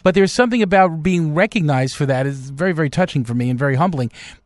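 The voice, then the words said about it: Noticeable accent. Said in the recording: “I recognize your voice. Yeah, I can't really hide this accent, can I?”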